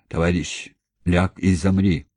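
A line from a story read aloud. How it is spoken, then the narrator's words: Old man's wooden voice. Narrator (Russian): деревянным голосом сказал старик Николаев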